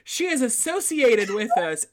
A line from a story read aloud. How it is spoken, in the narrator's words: pleaded Abbott